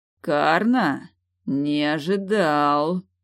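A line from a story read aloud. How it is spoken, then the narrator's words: Tense drawl. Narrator (Russian): напряженно протянул он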